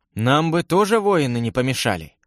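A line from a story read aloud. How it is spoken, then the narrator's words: Sighing. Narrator (Russian): вздохнул Всеволод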